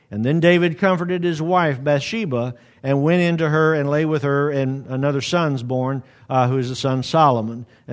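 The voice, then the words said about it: Reads aloud quickly. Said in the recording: “I've read that quickly”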